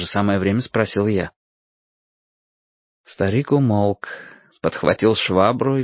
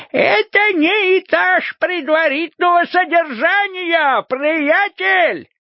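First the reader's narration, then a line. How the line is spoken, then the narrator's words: Yelling. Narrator (Russian): завопил он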